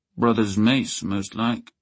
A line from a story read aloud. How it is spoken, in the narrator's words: Baylor said thickly